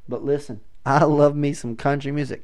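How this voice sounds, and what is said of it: Southern twang. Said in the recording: “here we go with the southern twang. I genuinely didn't try that.”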